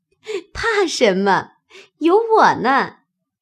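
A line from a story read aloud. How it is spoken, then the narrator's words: Laughing. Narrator (Chinese): 方官听了，笑道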